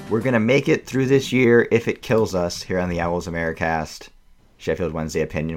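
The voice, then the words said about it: Low, rough, sick-sounding voice. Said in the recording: “I am not the only member of the pod under the weather this week... Various ones of us sound like various points of Leonard Cohen's late career. I think I'm probably like 90s Leonard Cohen at this point.”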